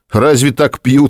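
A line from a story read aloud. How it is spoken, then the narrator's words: Laughing. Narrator (Russian): засмеялся Волков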